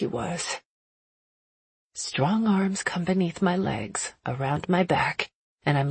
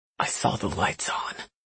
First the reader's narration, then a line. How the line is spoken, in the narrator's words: he whispers